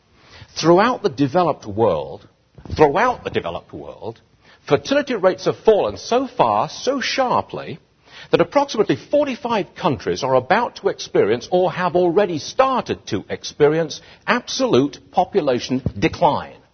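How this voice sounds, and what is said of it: Exotic foreign accent. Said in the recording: “this guy with this exotic foreign accent”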